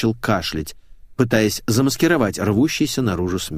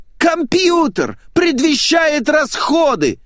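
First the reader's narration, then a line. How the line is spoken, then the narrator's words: Shrill squeal. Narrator (Russian): взвизгнул Митяев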